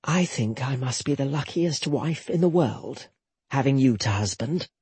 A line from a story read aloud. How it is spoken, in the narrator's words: whispered